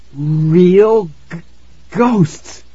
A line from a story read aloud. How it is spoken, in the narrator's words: I stammered